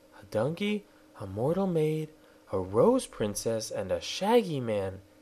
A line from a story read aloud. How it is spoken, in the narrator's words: she exclaimed